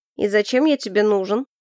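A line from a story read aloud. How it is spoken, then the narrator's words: Mocking question. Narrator (Russian): насмешливо спросил Ричи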